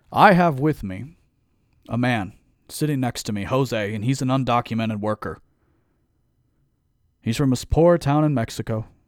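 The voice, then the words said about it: Mock politician speech voice. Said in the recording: “put on my politician voice.”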